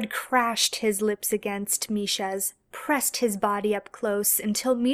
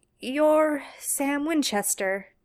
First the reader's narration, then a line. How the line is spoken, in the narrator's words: Misha finally said